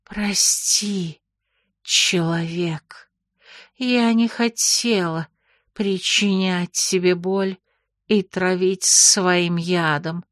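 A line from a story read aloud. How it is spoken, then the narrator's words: Muffled dull reply. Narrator (Russian): глухо отозвалась Нагайна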